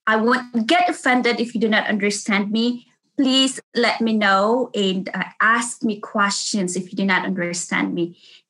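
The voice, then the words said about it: Thick Filipino accent. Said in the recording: “really thick accent ... I'm a Filipino. I have a thick accent.”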